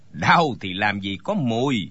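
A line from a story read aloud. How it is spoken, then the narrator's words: Sudden scoff, then speaking. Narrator (Vietnamese): Tên giúp việc trong tiệm tạp hóa bỗng cười khẩy một tiếng rồi nói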